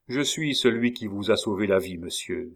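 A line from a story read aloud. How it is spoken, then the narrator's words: Cold reply. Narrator (French): répondit froidement le jeune homme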